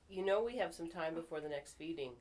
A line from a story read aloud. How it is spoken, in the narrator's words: Seth said